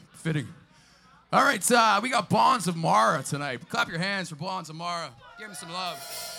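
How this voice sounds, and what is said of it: Hoarse, worn-out voice. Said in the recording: “I lost my voice halfway through that song.”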